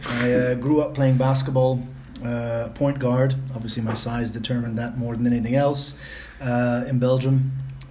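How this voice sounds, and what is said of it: Non-native English accent. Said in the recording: “apologize beforehand for my accent... We can't all have perfect North American accents.”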